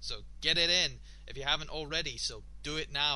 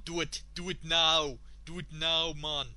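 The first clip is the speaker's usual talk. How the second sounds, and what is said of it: Attempted Jamaican accent. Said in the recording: “I try to do it kind of like a Jamaican accent”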